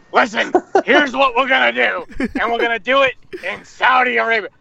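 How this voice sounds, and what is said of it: Vince McMahon impression. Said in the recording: “I've been on an impersonation kick ... I ended up doing Vince McMahon”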